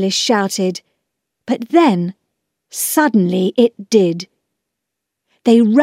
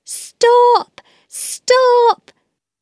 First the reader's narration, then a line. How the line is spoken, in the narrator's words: they waved them and shouted